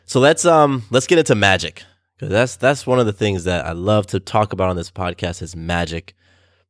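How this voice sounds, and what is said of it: Congested, sore-throated voice. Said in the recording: “I'm feeling a little under the weather. If you haven't noticed, my voice is kind of weird today. Sinusy stuff and sore throat.”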